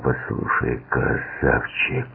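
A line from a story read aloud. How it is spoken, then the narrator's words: Tense voice. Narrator (Russian): напряженным голосом сказал он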